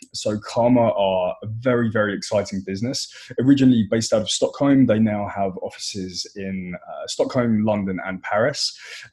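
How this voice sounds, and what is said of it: British accent. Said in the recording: “Excuse my British accent”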